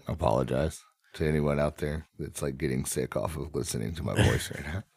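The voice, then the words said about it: Raspy, sick-sounding voice. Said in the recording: “Is my voice really bad right now? ... It's a little sicky. ... A little raspy? ... A little bit.”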